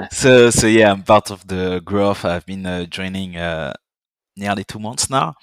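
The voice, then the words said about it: Slight French accent. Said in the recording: “as you can hear, I'm French. I have a bit of a French accent”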